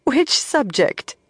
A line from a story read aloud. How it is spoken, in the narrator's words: Moiraine asked, half laughing